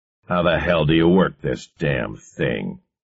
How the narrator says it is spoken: bellowed irritably

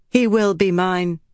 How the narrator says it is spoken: Avienda said firmly

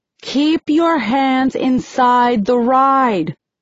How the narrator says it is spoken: Eight yells

